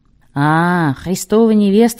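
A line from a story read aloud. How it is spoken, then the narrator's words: Laughing. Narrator (Russian): засмеялся Эммануил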